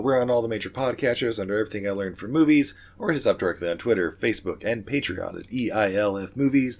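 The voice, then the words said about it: Failing, very deep voice. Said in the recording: “totally losing my voice right about now. ... you couldn't even harmonize with yourself. ... I sound like Barry White now.”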